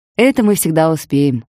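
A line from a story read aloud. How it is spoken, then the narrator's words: Laughing. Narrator (Russian): ответила я, смеясь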